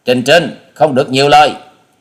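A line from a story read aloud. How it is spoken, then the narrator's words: Glaring shout. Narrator (Vietnamese): Hà Xà tiên tử trừng mắt quát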